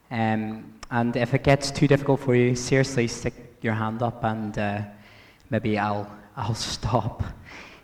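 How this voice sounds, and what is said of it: Impaired voice, harder to understand. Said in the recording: “I have to apologize for my voice this morning. I might be a bit more difficult than normal to understand.”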